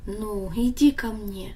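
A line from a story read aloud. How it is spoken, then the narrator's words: Gentle after long silence. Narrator (Russian): Отец долго молчал, но потом ласково сказал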